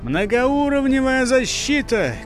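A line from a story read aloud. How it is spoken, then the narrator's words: Warning shout. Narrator (Russian): крикнул боевик с предупредительной интонацией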